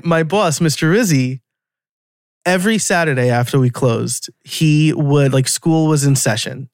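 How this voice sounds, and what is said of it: New York accent. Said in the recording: “my New York accent's going to come out now”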